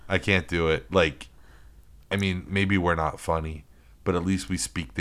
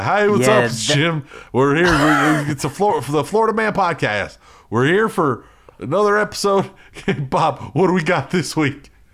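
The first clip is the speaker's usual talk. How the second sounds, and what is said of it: Mock Southern American accent. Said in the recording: “Southern accent. If I hear somebody, if the hosts have a Southern accent”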